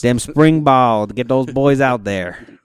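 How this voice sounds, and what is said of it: Poor put-on Southern US accent. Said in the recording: “That was a bad Southern accent.”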